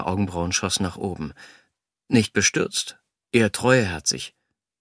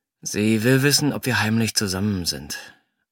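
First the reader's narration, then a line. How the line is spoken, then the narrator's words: Hesitant. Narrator (German): sagte zögernd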